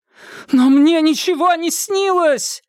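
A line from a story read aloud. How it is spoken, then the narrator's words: Desperate shout. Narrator (Russian): отчаянно закричала нарцисс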